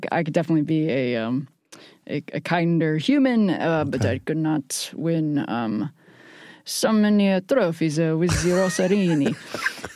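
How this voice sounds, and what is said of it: Weak put-on Italian accent, sounds French. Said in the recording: “Sound like Pepe Le Pew ... you're not doing a good enough Italian accent, so it sounds kind of funky in French”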